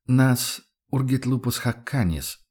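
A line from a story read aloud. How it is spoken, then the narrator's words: Hunter's barely audible mutter. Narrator (Russian): буркнул охотник чуть слышно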